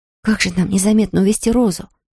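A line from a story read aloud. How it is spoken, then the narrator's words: Whisper. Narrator (Russian): прошептала Марен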